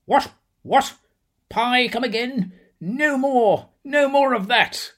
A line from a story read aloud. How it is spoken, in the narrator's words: The monarch, mute till then, exclaimed